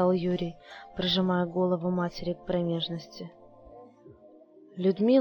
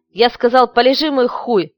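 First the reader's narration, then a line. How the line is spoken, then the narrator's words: Barked. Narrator (Russian): Рявкнул мальчик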